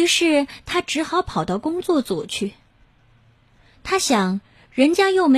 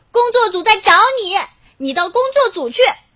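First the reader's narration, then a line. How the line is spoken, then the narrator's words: Shouting. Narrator (Chinese): 妹妹又喊道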